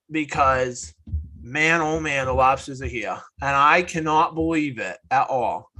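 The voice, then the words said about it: Put-on Maine accent. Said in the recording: “I'm going to talk in my main accent the rest of the night.”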